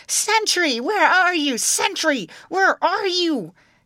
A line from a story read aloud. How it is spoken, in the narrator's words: the princess howling and shrieking